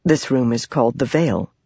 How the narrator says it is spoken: the servant explained softly

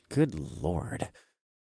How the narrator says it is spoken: sighed

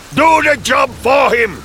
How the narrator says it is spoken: I screamed

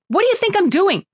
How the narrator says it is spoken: She shouted

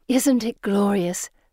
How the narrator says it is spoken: Felicity sighs

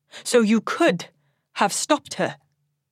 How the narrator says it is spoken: Mother snaps

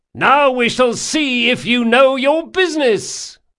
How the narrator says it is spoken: shouted Locke, unable to disguise his mirth

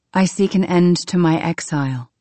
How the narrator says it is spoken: I said

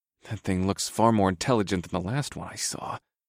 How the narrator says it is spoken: I muttered darkly

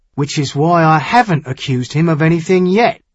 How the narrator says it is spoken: Wave Thunder said rather more sharply

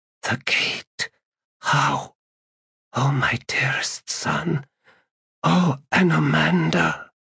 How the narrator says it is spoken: Nemanda heard her whisper

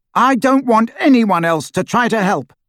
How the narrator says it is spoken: Harry said loudly, and in the total silence his voice carried like a trumpet call

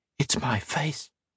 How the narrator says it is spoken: whispered

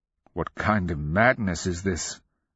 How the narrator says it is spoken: Zaranga murmured from his side

